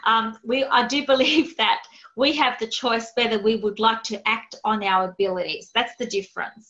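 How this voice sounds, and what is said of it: Australian accent. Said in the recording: “That's my Aussie accent coming through.”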